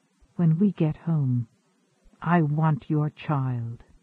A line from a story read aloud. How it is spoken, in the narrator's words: she whispered, straining against him